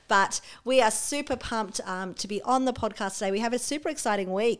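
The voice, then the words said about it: Husky voice. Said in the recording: “I've been struggling with the flu, so hence this husky, sexy voice”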